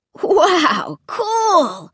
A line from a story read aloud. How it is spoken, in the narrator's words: he cried